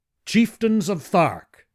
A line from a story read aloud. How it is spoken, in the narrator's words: I cried